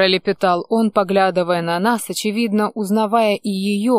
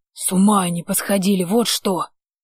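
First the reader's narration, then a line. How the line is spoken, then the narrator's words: Rapid near-whisper. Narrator (Russian): Почти шепотом протарахтел мужик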